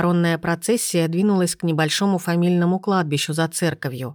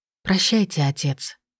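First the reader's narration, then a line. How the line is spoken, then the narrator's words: Whisper. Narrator (Russian): прошептала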